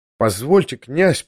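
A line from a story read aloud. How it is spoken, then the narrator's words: Timid babbling. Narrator (Russian): пролепетал я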